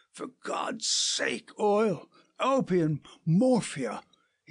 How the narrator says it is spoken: he cried

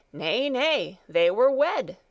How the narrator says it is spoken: the dalesman cried

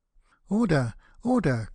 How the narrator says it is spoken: cried out a cracker

